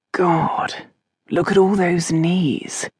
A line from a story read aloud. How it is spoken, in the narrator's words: Robin murmured